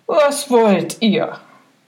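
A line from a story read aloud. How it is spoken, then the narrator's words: Plain question. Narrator (German): fragte der Knecht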